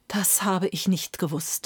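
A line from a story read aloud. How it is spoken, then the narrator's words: Emperor groaning. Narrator (German): stöhnte der Kaiser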